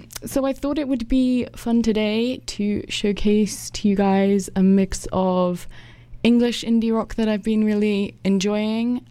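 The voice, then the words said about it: British accent. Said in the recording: “if you couldn't tell from the accent, I am from the UK”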